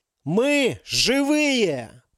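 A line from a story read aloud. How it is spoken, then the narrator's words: Shout. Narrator (Russian): закричал Ярик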